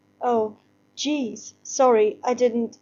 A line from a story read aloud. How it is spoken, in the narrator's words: she stutters